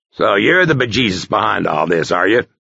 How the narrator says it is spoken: he grunted

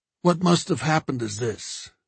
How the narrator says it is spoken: Joe said in a heavy voice

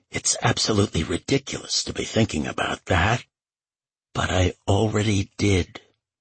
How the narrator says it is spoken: said, her voice rasping and near a whisper

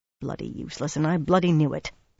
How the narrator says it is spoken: Dosine muttered

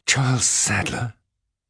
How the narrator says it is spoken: she gasped

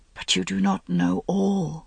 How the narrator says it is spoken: he whispered

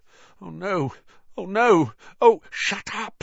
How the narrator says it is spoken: said Harry frantically

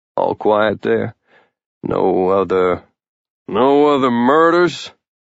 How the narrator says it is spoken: Randy asked him dryly

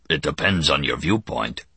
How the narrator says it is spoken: The Kazin rumbled

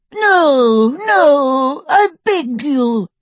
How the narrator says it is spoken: sobbed Xenophilius

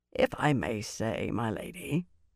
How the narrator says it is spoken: Norrie said in his dry voice

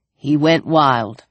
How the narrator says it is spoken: Larry said flatly

